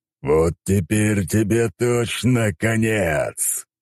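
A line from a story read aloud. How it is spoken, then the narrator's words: Growl. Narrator (Russian): прорычал он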